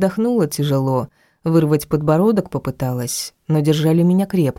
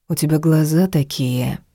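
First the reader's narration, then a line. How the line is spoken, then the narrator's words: Unexpectedly soft. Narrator (Russian): неожиданно мягко сказал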